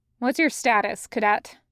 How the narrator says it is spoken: Turfo asks, in her usual, neutral, even monotone

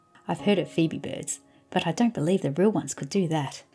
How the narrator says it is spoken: laughed Rose

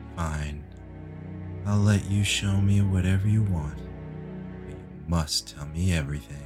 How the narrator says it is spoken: After a long pause, he sighed and said

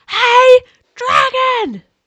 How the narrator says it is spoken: She shouted as loud as she could

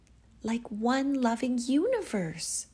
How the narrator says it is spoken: exclaimed Misha

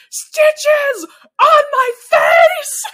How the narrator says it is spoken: Sydney screams

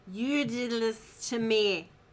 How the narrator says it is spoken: Dwight slurs

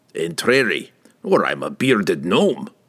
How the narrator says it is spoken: Bruenor grumbled

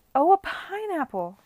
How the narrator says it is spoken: cried someone

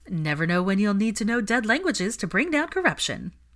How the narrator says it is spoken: Ginny giggled

